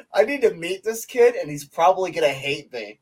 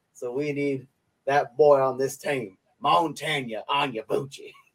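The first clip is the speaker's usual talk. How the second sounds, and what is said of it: Fake cowboy accent. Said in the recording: “the fake cowboy accent”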